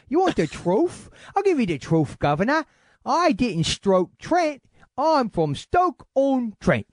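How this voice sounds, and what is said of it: Poor put-on English regional accent. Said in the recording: “that may have been the worst yet ... whenever they say TH, they add an F ... I don't even know if they would have that accent there”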